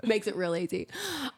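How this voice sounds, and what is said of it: Sarcastic tone. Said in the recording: “That was sarcastic”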